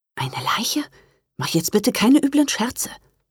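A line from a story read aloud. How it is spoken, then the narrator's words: Whispering. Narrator (German): flüsterte Johanna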